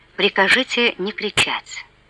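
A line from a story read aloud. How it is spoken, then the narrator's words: Quiet. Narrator (Russian): тихо сказал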